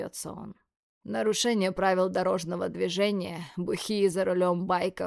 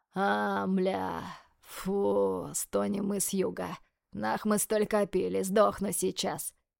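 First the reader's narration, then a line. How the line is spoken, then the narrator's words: Hoarse wheeze. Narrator (Russian): хрипит Свят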